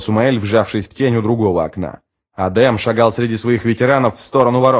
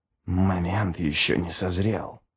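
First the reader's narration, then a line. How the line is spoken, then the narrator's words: Whispered. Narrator (Russian): прошептал Ничто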